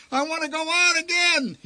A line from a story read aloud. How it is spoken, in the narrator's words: screamed